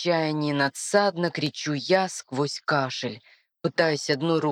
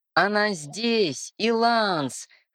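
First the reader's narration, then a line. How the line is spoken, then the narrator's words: Wheezing reply. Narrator (Russian): хрипя отвечает Амиран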